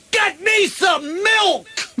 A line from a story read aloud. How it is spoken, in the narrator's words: He does shout